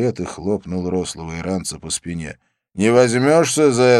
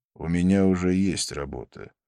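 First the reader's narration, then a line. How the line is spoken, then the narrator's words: Calm. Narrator (Russian): спокойно сказал Абдулла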